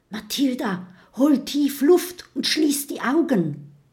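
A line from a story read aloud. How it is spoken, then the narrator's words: Whisper. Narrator (German): flüstert Kokosnuss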